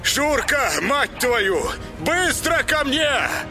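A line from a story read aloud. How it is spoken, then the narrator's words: Yelling into storm. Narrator (Russian): Заорал он в бурю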